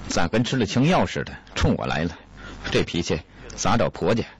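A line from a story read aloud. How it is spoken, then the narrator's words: Monk's grumbling mutter. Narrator (Chinese): 和尚嘟囔着说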